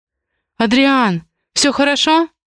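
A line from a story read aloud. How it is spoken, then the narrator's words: Breathless exhale. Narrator (Russian): выдохнула Раиса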